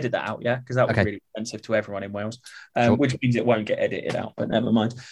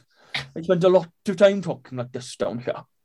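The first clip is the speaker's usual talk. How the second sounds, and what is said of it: Put-on Welsh accent. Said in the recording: “I can do a better Welsh accent than that.”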